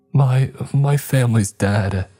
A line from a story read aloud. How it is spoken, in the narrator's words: Amy sobbed